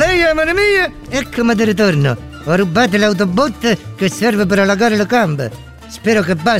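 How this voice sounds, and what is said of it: Usual voice. Nothing is said of it.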